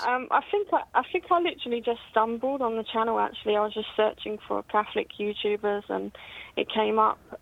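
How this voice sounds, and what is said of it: British accent. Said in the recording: “your accent really classes the place up ... a British accent”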